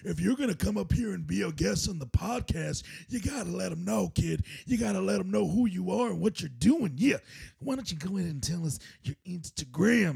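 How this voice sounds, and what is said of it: Macho Man-style Stone Cold impression. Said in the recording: “Was that Macho Stone Cold?”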